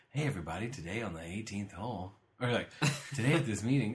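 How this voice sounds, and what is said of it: Calm smooth golf announcer voice. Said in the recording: “golf voice ... real calm and smooth”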